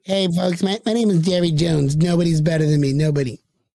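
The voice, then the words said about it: Imitates another person's voice. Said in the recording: “my Jerry Jones impersonation ... Sounded pretty accurate.”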